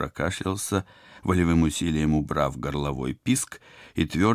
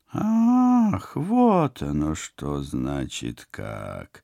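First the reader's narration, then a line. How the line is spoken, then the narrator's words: Menacing drone from window. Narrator (Russian): Угрожающе прогудели из оконца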